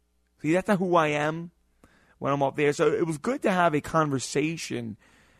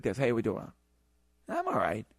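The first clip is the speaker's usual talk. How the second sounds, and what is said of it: Casual off-air speaking voice. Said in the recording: “this is my radio voice ... I speak in such a tone. I speak in such a way. When I am off the air, I speak a little bit differently.”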